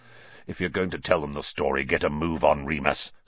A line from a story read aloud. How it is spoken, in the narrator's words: snarled Black